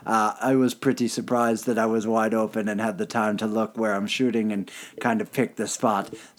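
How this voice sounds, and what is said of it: Weak Finnish-accent impression of Patrik Laine. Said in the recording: “I don't do a good Patrick Waine ... accent? ... Just the accent. ... Is that what Finnish people sound like?”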